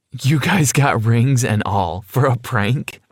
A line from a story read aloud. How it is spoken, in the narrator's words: I chuckled